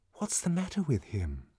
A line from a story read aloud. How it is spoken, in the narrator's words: whispered Lenina